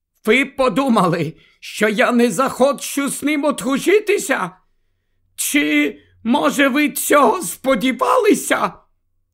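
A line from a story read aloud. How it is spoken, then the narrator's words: Indignant exclamation. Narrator (Ukrainian): вигукнула ці слова, і ніздрі її затремтіли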